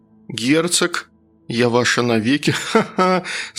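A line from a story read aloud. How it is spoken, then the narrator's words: Laughing. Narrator (Russian): засмеялась я, услышав свой новый голос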